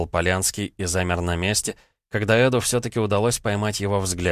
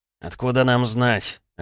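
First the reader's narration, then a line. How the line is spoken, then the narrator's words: Snapping retort. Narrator (Russian): огрызнулся Полянский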